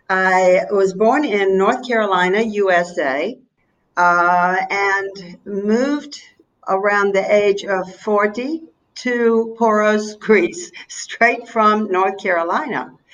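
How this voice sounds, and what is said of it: American Southern accent. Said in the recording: “you've never lost your southern accent, I plan to keep it”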